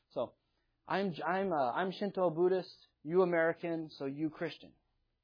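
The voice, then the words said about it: Put-on Japanese accent. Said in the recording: “This is my Japanese impersonation here.”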